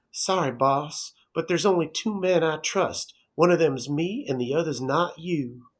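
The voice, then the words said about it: Imitates another person's accent. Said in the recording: “I'm gonna try to throw on his terrible accent for this quote”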